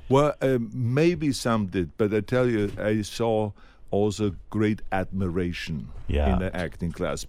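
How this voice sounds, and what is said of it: Big thick foreign accent. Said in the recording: “accent removal lessons ... you're waiting for that accent to disappear ... he's got this big, thick accent”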